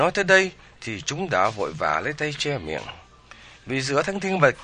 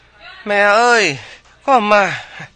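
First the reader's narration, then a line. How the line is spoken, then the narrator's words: Shrill shout in unison. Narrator (Vietnamese): cùng kêu lên chói lói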